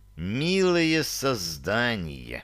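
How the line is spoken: Hiss, indignation barely contained. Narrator (Russian): Справившись, наконец, с законным негодованием, прошипел

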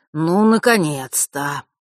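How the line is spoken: Relieved exhale. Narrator (Russian): с явным облегчением выдохнул Фэш

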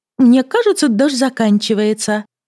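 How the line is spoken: Overly cheerful. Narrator (Russian): сказала чересчур радостно

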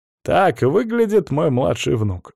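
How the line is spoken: Wry snort. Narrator (Russian): хмыкнул Эксара

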